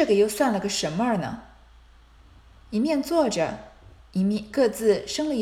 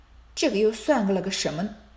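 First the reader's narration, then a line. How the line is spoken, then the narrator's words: Muttering to oneself. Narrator (Chinese): 嘴里咕咕哝哝自言自语道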